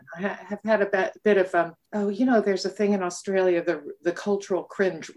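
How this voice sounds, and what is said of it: North American accent. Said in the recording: “you can tell from the accent that I'm not a native ... it is a North American accent”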